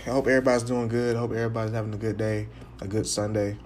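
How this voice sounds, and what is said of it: Tired-sounding voice. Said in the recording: “so I'm kind of tired ... your boy's kind of tired. I mean, look, I know y'all can tell by my voice”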